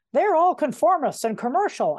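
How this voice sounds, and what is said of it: Grumpy old man voice. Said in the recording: “I don't know why I gave that a grumpy old man voice,”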